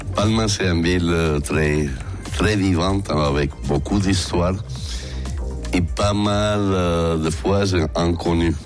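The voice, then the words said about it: Speaks French with a foreign accent. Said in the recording (French): “quel bonheur d'entendre cette voix, cet accent”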